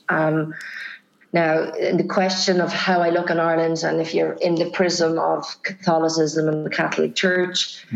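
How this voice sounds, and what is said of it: Irish accent. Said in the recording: “oh, she's Irish. You know, it's the accent”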